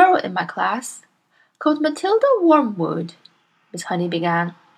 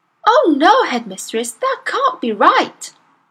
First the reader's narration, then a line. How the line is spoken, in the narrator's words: Miss Honey cried